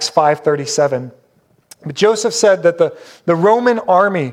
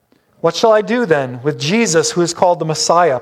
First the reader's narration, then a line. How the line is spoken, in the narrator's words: Pilate asked